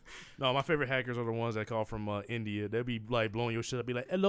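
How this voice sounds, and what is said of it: Usual voice. Nothing is said of it.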